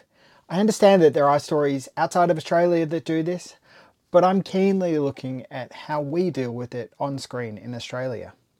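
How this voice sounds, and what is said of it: Australian accent. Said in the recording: “as you probably understand from my accent, from an Australian perspective.”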